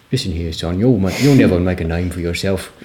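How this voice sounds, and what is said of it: Put-on Australian-sounding accent. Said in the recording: “That's more Australian, isn't it? ... That was very method.”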